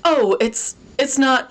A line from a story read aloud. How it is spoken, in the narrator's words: she stammered